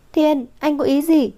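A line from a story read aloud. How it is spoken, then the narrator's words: Exasperated outcry. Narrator (Vietnamese): Vũ Thư không nhịn được kêu lên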